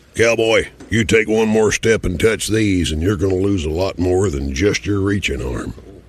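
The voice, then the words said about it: Sam Elliott impression. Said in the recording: “That's Sam Elliott. ... And his voice, man. It's just something about his voice.”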